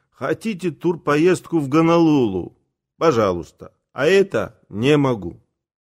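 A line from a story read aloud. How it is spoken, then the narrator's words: Bent-over groan. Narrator (Russian): я простонал, согнувшийся в дугу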